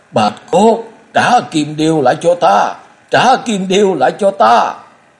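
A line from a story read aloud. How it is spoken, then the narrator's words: Frantic woman's scream. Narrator (Vietnamese): Vị phu nhân thất thanh gào lên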